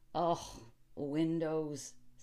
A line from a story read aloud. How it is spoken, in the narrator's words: said the county attorney scoffingly